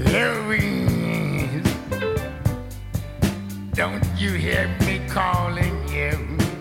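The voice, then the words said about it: Imitates a blues singer's voice. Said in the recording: “the one and only Mr. Howlin' Wolf. I like to do my imitation, my version”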